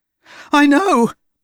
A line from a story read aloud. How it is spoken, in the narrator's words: Mort yelped